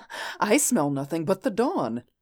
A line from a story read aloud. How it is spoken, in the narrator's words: she said and laughed